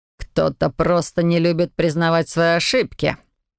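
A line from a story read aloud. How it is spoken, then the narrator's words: Mocking, provoking retort. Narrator (Russian): насмешливо парировал он, слегка прищурившись и словно специально выводя меня на эмоции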